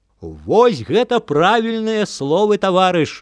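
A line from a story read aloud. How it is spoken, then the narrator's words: Shouting. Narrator (Belarusian): закрычаў віскун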